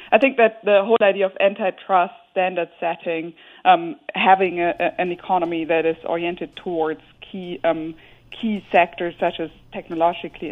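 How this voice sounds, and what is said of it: German accent. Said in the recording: “You might hear my German accent”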